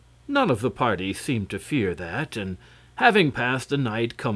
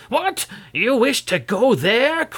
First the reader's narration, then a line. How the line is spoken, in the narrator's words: cried the man